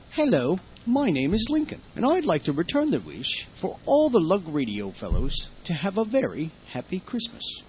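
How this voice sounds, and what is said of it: Fake British accent, sounds Australian. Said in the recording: “that's me in my fake British accent, and I think it sounds Australian. However, I'm not British”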